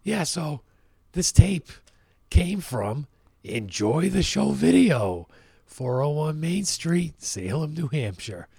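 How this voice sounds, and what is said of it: Hoarse, strained voice from laryngitis. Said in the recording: “Hopefully sometime in the future my fucking voice comes back ... I had the flu all last week, and as a result, I got laryngitis.”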